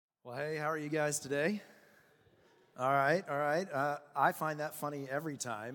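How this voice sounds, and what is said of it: Slightly raspy, strained voice. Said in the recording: “my voice is just a little raspy. And so I lost it earlier this week.”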